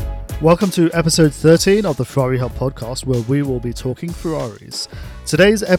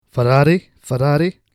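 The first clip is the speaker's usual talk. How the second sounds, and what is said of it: Poor put-on Scottish accent. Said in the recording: “I can't do this Scottish accents ... the poor attempt at the accent”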